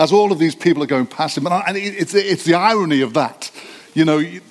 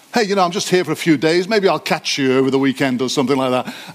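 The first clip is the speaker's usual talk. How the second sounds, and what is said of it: Put-on Australian accent. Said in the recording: “My Australian accent is very good, so that's all I'll do.”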